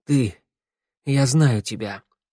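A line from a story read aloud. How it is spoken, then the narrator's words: Hoarse. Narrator (Russian): хрипло сказал Тео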